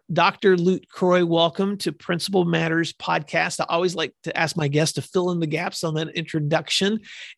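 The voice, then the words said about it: Hoarse voice. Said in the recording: “my voice is hoarse because I have a cold ... you get to hear the hoarse”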